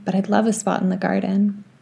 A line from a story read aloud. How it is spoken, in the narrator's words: Blake said quietly